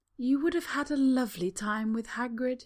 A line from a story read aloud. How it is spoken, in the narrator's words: he says, sighing